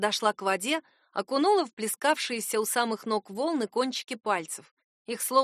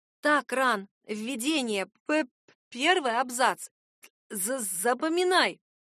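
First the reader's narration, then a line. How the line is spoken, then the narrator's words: Forced cheerful strain. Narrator (Russian): бодрясь выдавила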